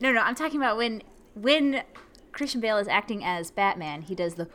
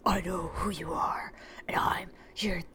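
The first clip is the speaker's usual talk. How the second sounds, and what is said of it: Groggy, intense gravelly superhero voice. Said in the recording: “Christian Bale's Batman voice ... that groggy voice ... it's a little intense”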